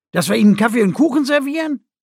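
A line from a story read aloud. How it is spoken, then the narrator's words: Stifled laughter. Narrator (German): Beinahe hätte laut gelacht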